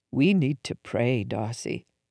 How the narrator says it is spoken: Mom said softly

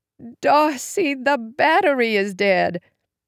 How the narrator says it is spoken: She groaned

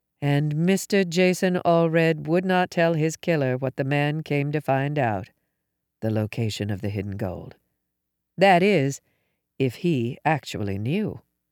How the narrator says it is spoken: murmured our hostess

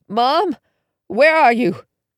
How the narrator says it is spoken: Moistening my lips, I croaked

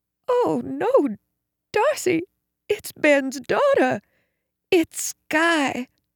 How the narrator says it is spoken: moaned

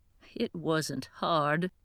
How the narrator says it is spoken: Mom chuckled

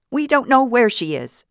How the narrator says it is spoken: Vida shouted

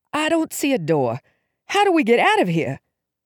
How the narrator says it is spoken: Gasping, said

